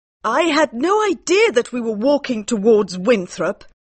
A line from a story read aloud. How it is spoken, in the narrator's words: cried Mary